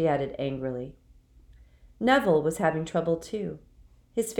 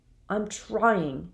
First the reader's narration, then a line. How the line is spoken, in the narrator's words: said Neville miserably